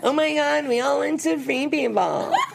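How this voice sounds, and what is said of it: Impression of a reality star. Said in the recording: “please imitate her again. That was the best. ... that's a great impression.”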